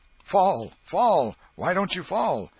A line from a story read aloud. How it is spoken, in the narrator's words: Tom shouted